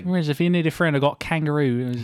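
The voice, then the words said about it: Attempted Australian accent sounding British. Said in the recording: “That was a British accent. I'm sorry to all our Australian listeners”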